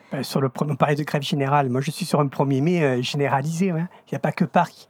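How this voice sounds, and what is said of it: Regional French provincial accent. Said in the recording (French): “ça s'entend mon accent, je suis de province”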